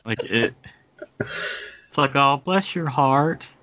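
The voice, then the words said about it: Kentucky accent, rising pitch. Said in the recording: “the perfect accent for the Kentucky, for the Kentuckian backhanded compliment ... the accent kind of rises in pitch toward the end of the sentence”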